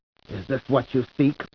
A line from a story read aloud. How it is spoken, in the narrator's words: Paul whispered